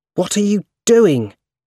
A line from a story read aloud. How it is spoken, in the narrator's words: He asked angrily